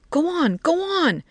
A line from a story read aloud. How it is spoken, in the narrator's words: exclaimed